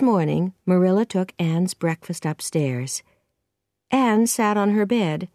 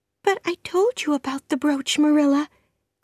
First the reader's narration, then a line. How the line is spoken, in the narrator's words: cried Anne